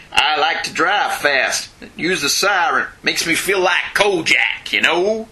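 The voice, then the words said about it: Failed attempt at New York accent. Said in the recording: “that was not a New York accent. ... I don't know what accent that was.”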